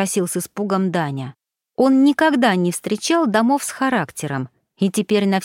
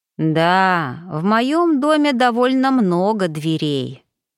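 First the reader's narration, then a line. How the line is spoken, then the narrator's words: Melancholy drawling elk. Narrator (Russian): меланхолично протянул лось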